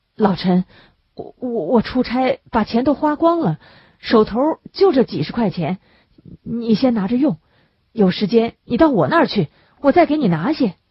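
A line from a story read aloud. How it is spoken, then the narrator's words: Stammering. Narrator (Chinese): 他结结巴巴地说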